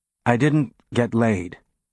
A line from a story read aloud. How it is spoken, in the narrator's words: Holden said hesitantly